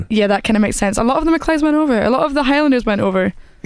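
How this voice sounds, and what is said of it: Beautiful accent. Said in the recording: “your accent's beautiful”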